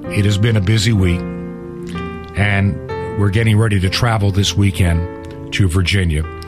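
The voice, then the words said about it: Hoarse voice. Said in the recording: “my voice is hoarse, as you can tell”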